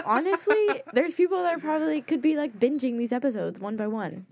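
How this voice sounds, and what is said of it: Raspy, strained voice. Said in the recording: “My voice is a little raspy. ... if it sounds like I'm losing my voice, I might be.”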